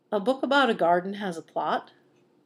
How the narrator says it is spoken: Lupin started and then laughed

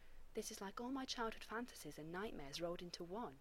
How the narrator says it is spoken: John whispered back

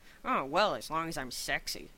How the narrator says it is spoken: Shepard said sarcastically

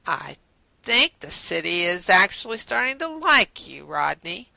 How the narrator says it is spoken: John said in a taunting drawl

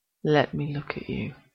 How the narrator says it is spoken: murmurs

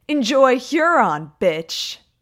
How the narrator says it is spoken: Holtzman yelled

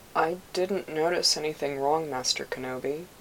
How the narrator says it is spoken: he said, his voice rising above its usual mumble

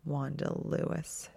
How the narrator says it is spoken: she grumbled, in mock irritation

